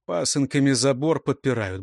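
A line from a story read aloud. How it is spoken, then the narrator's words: Grumble. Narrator (Russian): буркнул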